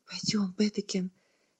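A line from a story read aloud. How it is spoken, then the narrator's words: Soft whisper in ear. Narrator (Russian): тихо прошептала ей на ухо тетя Маргретта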